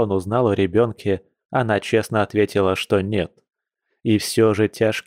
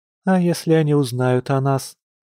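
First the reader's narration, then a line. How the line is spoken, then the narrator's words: Thin small voice. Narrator (Russian): тоненьким голоском спросила Маша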